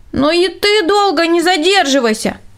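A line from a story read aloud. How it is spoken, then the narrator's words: Shouted after someone. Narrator (Russian): крикнул ему вдогонку Рудольф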